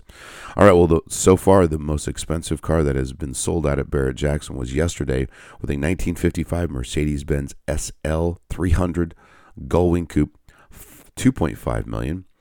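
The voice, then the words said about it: Deep, raspy sick voice. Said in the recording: “apologize for my voice ... I'm still battling whatever this bug that's going out there ... I apologize for the depth and raspiness of my voice”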